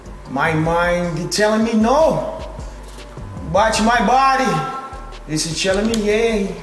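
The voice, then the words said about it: Fake satirical Brazilian accent. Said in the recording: “he puts on this fake, kind of satirical Brazilian accent.”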